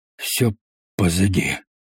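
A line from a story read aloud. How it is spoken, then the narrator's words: Hoarse repetition. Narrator (Russian): хрипло повторил Берегонд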